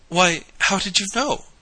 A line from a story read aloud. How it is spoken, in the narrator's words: gasped Mary Louise